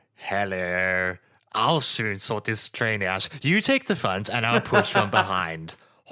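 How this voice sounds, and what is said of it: Imitates a cartoon train character's voice. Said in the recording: “my Derek impression”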